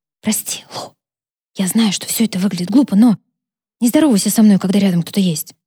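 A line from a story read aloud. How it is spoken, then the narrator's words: Whispered. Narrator (Russian): она шепнула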